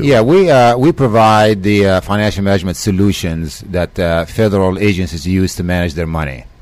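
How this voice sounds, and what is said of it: Slight accent. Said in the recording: “You have a bit of an accent. Where's the accent from?”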